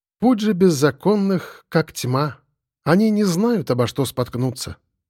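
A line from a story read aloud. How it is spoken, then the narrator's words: Calm woman. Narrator (Russian): спокойно сказала фартовая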